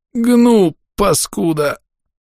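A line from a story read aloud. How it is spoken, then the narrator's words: Delirious hoarse rasp. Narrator (Russian): прохрипел я, находясь на грани безумия и беспамятства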